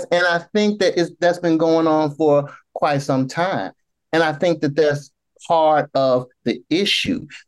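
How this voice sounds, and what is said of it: Southern American accent. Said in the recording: “my southern accent makes me say fear”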